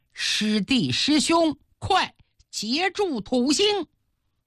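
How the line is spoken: Shouting while running. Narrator (Chinese): 边冲边喊

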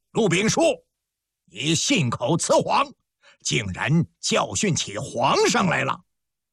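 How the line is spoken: Loud stern shout. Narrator (Chinese): 户部尚书、内务府总管肃顺大声喝道

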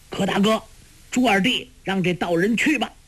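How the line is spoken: Loud shout. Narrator (Chinese): 焦木大叫

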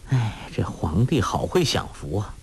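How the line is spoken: Sighing. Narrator (Chinese): 郭靖叹道

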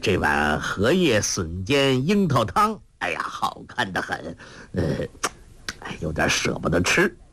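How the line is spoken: Laughing. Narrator (Chinese): 笑道

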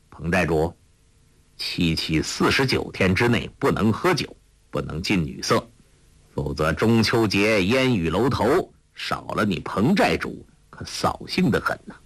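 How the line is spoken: Cold. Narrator (Chinese): 柯镇恶冷冷地说

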